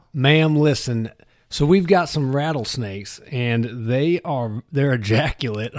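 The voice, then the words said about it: Attempted Southern drawl. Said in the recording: “a very southern man ... Southern drawl? ... Yeah, the southern drawl. ... I don't think I can do it. I tried, though.”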